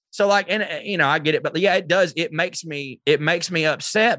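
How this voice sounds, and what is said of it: Speaker's own regional accent. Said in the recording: “I wear trucker hats. I get it. And they'll hear me talking ... to hear my accent”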